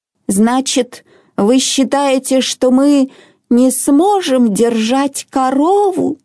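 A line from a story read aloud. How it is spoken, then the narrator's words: Grandmother's trembling voice. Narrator (Russian): спросила бабушка дрогнувшим голосом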